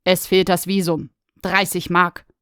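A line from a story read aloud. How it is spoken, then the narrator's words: Stern. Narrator (German): sagte er streng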